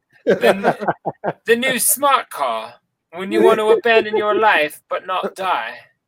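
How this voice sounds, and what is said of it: Good put-on British accent. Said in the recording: “British accent. That's good.”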